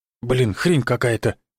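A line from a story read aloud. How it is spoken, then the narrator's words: Muttered grumble. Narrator (Russian): буркнул Юрцев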